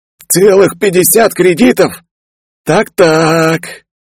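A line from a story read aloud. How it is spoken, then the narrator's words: Noisy eager exhale. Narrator (Russian): Почуяв первую информацию, шумно выдохнул журналист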